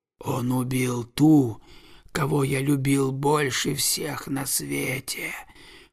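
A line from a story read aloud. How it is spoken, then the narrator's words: Hissing snake. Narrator (Russian): прошипел змей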